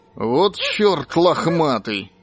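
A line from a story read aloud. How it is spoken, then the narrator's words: Embarrassed mutter through teeth. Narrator (Russian): сконфуженно процедил Петр Дмитриевич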